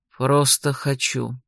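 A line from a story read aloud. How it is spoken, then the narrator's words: Calm reply. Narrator (Russian): спокойно откликнулся Роже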